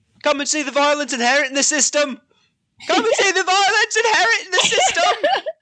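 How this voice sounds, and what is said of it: Bad put-on English accent. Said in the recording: “We're going to have the worst English accents ever ... Bad English accent”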